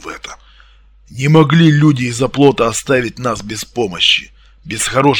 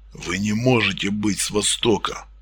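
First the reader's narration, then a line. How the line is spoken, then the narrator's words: Quiet menacing hiss. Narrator (Russian): тихо, но угрожающе зашипел Артем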